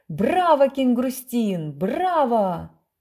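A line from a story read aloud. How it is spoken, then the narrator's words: Roaring crowd yelling. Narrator (Russian): Грохочущая публика орала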